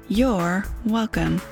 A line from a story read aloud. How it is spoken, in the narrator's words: September said